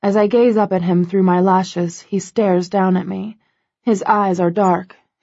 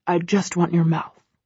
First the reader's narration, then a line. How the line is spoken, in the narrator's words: he growls